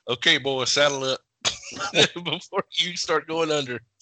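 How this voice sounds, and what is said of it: Put-on Southern accent. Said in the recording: “a Southern accent”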